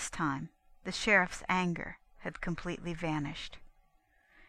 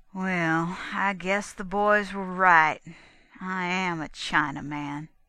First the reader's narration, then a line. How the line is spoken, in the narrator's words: drawled out